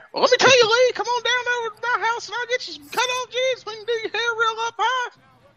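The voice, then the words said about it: High-pitched, poor imitation of another person. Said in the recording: “his voice would somehow become even more high-pitched ... world's worst Jimmy Hart impression.”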